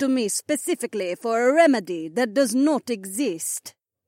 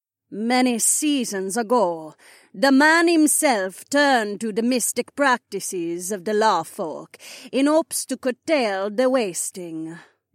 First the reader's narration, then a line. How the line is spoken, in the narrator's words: Madam Midgen answered in her strange, lilting accent